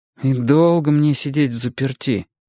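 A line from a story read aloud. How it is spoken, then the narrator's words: Glum question. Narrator (Russian): уныло спросил я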